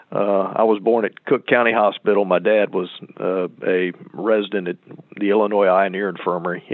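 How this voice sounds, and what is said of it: Southern Central Florida accent. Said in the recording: “a Southern accent like you have ... this is a native Central Florida accent.”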